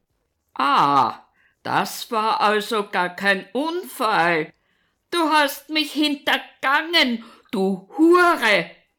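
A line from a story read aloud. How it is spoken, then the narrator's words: Continued roaring. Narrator (German): brüllt er weiter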